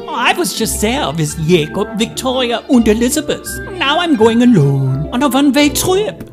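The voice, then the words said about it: German accent. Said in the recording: “speaks in Fritzy's German accent”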